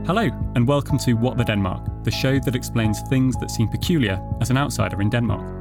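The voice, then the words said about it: British accent. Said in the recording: “as you can probably tell from my accents, I'm originally from the UK”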